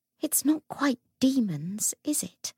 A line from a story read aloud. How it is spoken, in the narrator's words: Lucy whispered